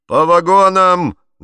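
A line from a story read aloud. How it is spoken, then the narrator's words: Loud shout. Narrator (Russian): громко крикнул кондуктор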